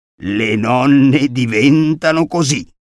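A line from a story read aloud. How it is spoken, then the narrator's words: Hoarse stammer. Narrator (Italian): balbettò con voce rauca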